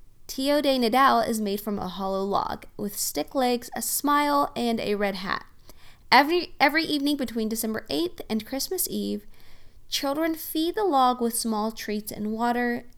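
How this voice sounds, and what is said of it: Oklahoma accent. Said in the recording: “my awesome Oklahoma accent”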